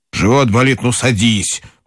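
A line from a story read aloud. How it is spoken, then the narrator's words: Angry grumble. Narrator (Russian): проворчал он сердито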